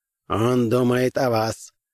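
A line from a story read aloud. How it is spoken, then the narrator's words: Flat colorless voice. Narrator (Russian): произнес своим бесцветным голосом Джон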